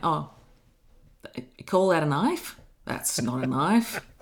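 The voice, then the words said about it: Imitated broad Australian accent. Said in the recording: “Paul Hogan is so broad in his accent ... stereotypical caricature of the place ... Can you do the, no, that's not a knife thing”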